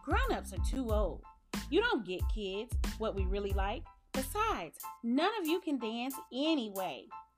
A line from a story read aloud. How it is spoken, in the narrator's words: Tiny Theo piped up